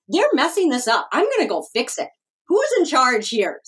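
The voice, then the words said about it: Precocious younger-self character voice. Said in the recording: “I put on my precocious ... voice”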